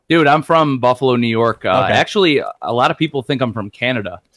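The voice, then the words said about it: Slight Midwestern American accent. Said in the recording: “you have a little Midwestern accent ... It sounds like you're from the Midwest”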